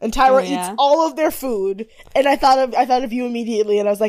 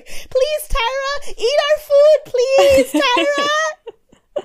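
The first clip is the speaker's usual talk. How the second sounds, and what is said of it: Manic imitation of another person's voice. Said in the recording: “That was my impression of Hillary doing her manic impression of Tyra.”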